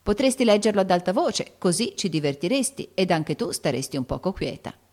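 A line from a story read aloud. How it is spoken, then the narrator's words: Plain. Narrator (Italian): disse Amy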